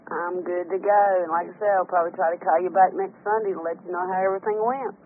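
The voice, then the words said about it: North Carolina accent. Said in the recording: “I love your accent, North Carolina ... the accent has a ring to it. Something sweet about it.”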